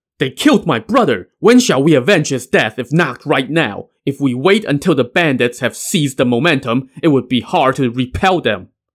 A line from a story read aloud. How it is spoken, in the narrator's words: Zeng Sheng shouted